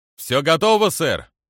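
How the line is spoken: Shouted reply. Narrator (Russian): выкрикнул в ответ Азморди

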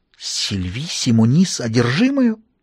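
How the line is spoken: Muttered. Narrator (Russian): пробормотал он

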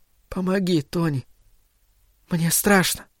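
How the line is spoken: Tearful whisper. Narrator (Russian): чувствуя тепло слез на ресницах и щеках, она прошептала

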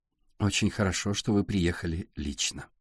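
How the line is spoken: Plain. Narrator (Russian): сказала Сашка

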